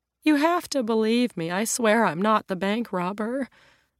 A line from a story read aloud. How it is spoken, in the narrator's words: she pleads